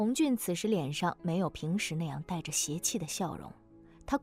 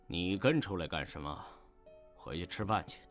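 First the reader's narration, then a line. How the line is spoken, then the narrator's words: Calm, detached. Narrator (Chinese): 弗兰德淡淡地说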